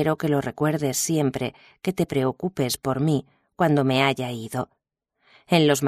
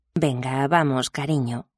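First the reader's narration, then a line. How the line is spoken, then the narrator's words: Plain. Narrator (Spanish): dijo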